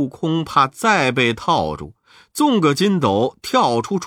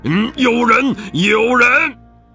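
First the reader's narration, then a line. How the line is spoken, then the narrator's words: Startled from sleep, wild shouting. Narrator (Chinese): 黄眉老佛在睡觉，立刻惊醒，跳起来乱叫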